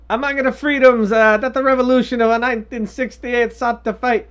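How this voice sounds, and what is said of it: Bad put-on Italian accent. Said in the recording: “in my bad Italian accent ... Fuck that accent.”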